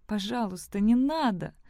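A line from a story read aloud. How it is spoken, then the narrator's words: Pleading. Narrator (Russian): взмолилась она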